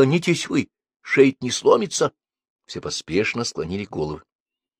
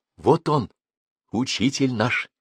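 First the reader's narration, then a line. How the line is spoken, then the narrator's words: Fervent whisper. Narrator (Russian): сказала Дуня горячим шептом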